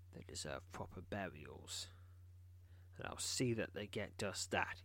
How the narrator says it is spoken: he says grimly

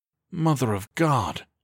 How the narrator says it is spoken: Sellers breathed

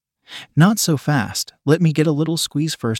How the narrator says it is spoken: he said

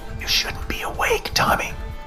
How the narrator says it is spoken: Dad whispered

